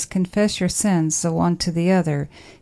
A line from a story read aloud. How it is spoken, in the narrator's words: he says